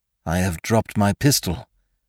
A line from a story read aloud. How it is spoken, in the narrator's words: muttered Sime